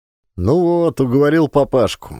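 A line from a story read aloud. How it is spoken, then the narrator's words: Cheerful. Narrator (Russian): весело сказал Ленчик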